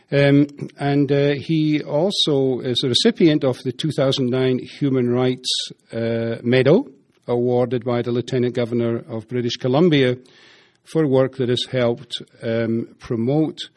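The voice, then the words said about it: Scottish Dundee accent. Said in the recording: “He doesn't have as good an accent as I do, as a Dundee thing”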